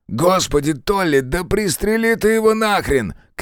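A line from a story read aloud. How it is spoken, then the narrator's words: Shout. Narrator (Russian): крикнул кривоногий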